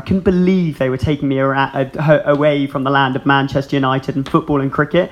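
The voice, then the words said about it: English accent. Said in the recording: “English accent, which I didn't really ask for ... I decided that I absolutely would not pick up any American colloquialisms or any trace of an American accent ... no trace of an Irish accent”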